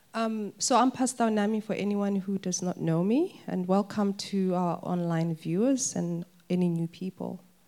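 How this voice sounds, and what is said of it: Strained, unwell-sounding voice. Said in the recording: “Excuse my voice, just recovering from something.”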